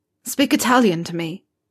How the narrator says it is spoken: Harry gasped

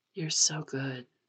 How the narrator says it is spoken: Pisang whispers

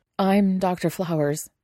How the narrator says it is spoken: he finally blurts

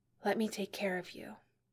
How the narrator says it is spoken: Elle whispered

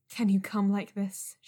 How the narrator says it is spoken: panted

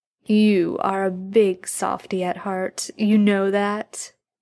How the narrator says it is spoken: Jensen's voice was nearly identical to the cat's in the way that it rumbled from the doorway

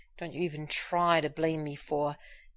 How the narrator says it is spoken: said, and broke off with an enthusiastic moan

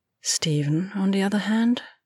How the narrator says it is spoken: she sighed

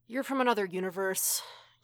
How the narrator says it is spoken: he sighs

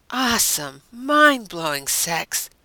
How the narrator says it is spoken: Deanna said with a sigh

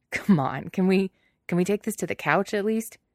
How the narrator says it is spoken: Ryan burbles with laughter and says

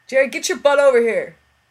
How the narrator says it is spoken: turns and shouts loud enough that Street winces

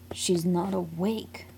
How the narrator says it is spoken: Paul snaps

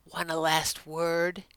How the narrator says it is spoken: whispered

